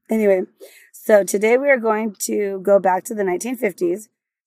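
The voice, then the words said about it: Raspy, strained voice. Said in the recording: “I had no voice. You can tell it's raspy right now. ... she lost her voice.”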